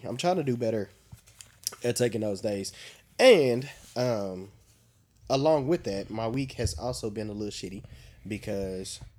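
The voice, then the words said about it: Slightly congested voice. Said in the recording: “I don't know if you can hear it in my voice, but I am a little congested because my allergies have been on 1,000”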